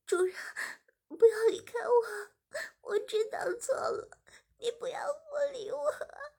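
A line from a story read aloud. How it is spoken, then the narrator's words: Crying. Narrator (Chinese): 志明马上哭着说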